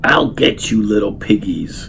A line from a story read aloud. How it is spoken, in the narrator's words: he snarled